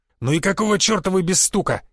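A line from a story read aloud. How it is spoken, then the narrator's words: Growling while chewing. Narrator (Russian): прожевывая бутерброд, зарычал Гвоздев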